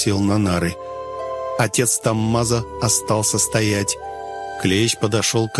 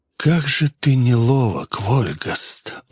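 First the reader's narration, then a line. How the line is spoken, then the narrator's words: Breathed out. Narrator (Russian): он выдохнул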